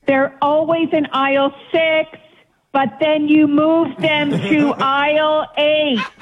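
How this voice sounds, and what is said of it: Screaming. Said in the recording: “Why are you screaming?”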